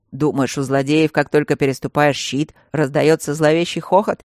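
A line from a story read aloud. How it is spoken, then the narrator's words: Wry snort. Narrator (Russian): хмыкнул Мартин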